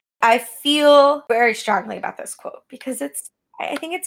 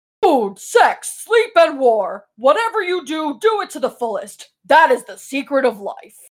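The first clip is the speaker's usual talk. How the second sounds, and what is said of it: Character voice reading a quote. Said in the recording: “in my Ryder voice”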